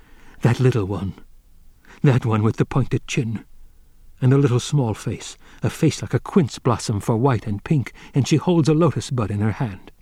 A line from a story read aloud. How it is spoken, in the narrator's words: his desire overcame him, and he whispered